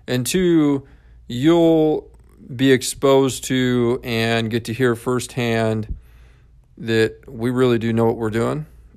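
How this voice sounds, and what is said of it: Country accent. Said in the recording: “hear my amazing country accent, right? Grew up on a farm, and I'm sure you can hear that.”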